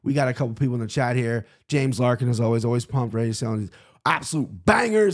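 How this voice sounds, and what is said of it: Strained, hoarse voice. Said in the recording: “My voice isn't there yet ... This is a screaming incident related throat thing.”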